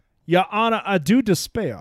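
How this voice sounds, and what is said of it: Gloomy Southern drawl. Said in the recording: “my impression of a depressed Southern lawyer”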